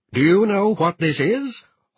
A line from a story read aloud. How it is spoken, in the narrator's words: thundered